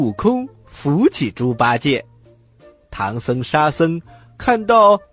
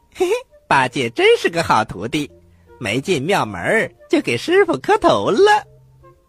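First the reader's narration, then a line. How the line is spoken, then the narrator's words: Sly snickering. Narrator (Chinese): 孙悟空偷偷的笑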